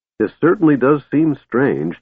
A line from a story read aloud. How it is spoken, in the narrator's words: Tess said cheerfully